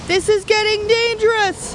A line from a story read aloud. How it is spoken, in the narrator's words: shouted Eliab over the howling wind